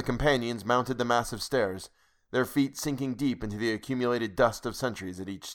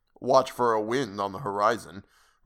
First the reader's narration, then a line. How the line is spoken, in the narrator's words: responded the Afghan gloomily